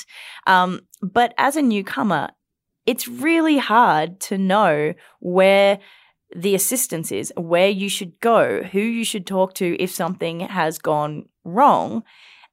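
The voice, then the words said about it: Foreign accent. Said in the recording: “I've been through the immigration system. I don't know if you can tell from my accent.”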